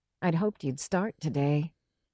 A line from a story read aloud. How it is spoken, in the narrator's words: she said